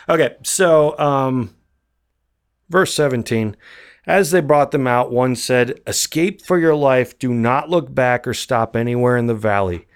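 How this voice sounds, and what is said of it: Tired, strained voice. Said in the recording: “I'm getting tired, man. I've been talking for a long time. My voice is going.”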